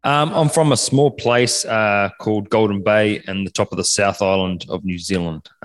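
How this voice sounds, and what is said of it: New Zealand accent. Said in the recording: “I'm actually detecting a Kiwi accent ... I detected a New Zealand accent”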